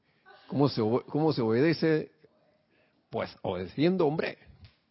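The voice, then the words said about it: Put-on Spain Spanish accent. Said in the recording (Spanish): “acento español, porque hay varios acentos españoles ... yo creo que él no habla así”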